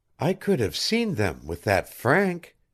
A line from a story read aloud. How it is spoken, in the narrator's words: he murmured to Patrasche